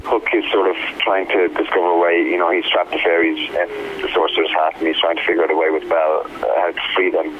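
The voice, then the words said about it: Irish accent, brogue. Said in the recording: “I detect an accent... I'm Irish... I love the brogue”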